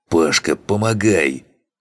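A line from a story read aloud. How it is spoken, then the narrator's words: Hoarse through clenched teeth. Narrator (Russian): Хриплю сквозь зубы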